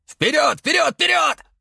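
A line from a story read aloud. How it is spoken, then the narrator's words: Shouted command. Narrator (Russian): закричал командир инженерной группы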